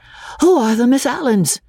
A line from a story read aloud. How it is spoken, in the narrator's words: Freddy panted